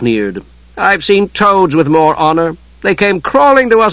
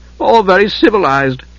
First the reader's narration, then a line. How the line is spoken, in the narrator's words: Trevallon laughed